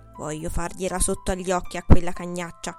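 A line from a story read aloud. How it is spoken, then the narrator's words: Muttering. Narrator (Italian): borbottava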